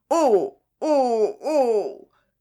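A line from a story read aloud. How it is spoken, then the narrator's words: Moaning. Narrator (French): gémit M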